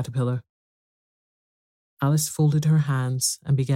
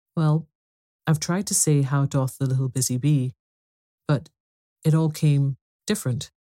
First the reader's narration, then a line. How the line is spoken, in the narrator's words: Alice replied in a very melancholy voice